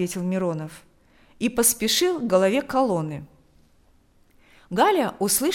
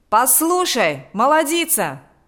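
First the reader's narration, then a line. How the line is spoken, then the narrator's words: Shouting. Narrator (Russian): закричал Миронов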